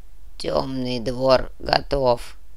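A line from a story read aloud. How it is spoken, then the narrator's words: Gruff mutter. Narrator (Russian): буркнул князь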